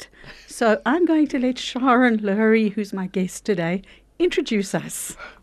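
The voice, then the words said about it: Hoarse, nearly lost voice. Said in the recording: “As you can hear from my voice, I've lost it... I haven't got a voice.”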